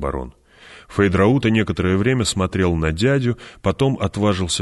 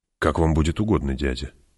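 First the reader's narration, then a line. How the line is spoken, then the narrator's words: Soft. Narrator (Russian): мягко сказал Фейдраута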